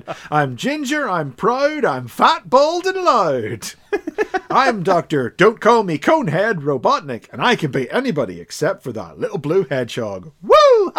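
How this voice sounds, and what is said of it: Impression of Dr. Robotnik. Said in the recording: “his impression, and his impression ... to emulate Dr. Robotnik”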